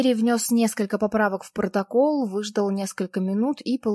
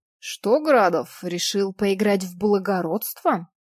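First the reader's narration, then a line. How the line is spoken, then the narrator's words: Angry through teeth. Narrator (Russian): сердито процедил Пантурин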